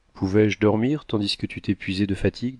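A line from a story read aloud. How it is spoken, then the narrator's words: Plain. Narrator (French): dit-elle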